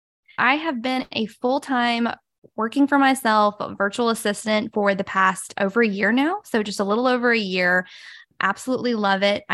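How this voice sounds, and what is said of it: Southern US accent. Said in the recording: “I love your accent ... people are going to make so much fun of my accent.”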